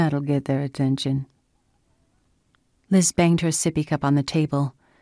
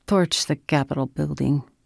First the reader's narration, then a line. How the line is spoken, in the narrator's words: Dante said calmly